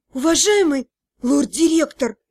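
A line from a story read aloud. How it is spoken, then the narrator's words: Hoarse voice. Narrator (Russian): осипшим голосом начала я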